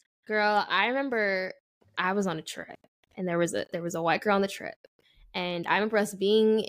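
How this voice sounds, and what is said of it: Usual voice. Nothing is said of it.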